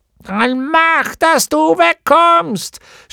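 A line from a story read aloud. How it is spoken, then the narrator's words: Gnome shouting angrily. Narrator (German): schrie der Gnom ihn an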